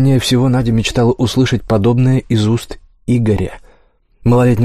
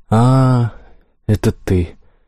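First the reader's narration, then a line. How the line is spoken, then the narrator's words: Sad. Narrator (Russian): грустно произнесла Надя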